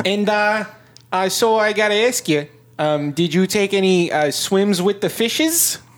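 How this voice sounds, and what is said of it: Put-on Wisconsin accent. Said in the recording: “two innocent people from Wisconsin ... I'm changing my accent now, apparently”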